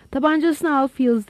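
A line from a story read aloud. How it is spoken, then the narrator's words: Plain. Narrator (Turkish): dedi Lowell yayıncısına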